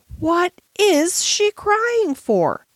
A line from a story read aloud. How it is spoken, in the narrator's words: she almost yelled